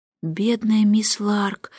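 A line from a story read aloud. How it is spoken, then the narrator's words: Sighing. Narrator (Russian): вздохнула Джейн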